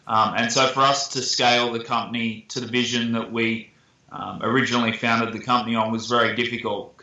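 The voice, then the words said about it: Australian accent. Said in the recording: “you're from Australia. I think most people can tell that from your accent.”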